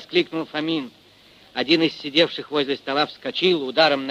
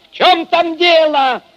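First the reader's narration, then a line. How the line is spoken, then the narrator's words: Shout into darkness. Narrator (Russian): крикнул он в темноту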